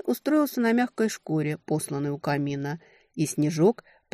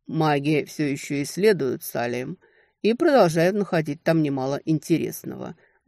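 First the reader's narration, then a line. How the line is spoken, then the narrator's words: Gloomy. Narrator (Russian): мрачно добавил Скальде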